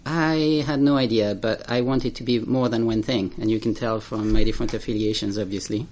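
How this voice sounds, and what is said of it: French accent. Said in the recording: “I grew up in France, as you can tell from my accent”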